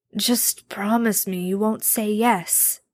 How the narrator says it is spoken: Castiel replied weakly

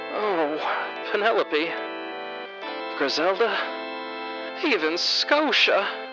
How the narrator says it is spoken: moaned in desperation

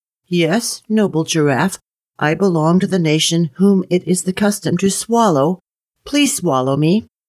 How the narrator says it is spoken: he only said in a small little voice

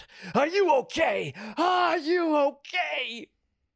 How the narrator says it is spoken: A voice screams out

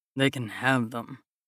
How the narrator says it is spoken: I grumble under my breath

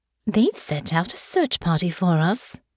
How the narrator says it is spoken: Delphinia said brightly

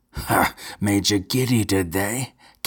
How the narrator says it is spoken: cackled Count Geral, suddenly abandoning his arrogant pose

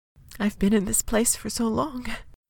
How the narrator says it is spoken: Peony whispered, and her voice trembled, though Thimble could not tell if it did so out of worry or joy

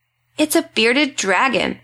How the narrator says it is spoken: my son exclaimed

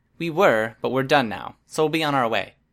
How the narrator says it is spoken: Tattletail called out, her voice raised to be picked up by whatever microphones Dragon was using to listen in on us

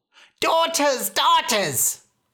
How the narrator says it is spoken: cried the mother

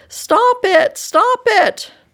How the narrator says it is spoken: sobbed

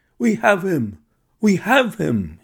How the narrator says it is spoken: he cried

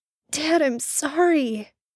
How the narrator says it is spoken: Sam burst out desperately

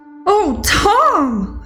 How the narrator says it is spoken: cried

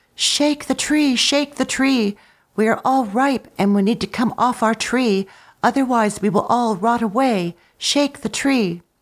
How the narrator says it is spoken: The apples cried out

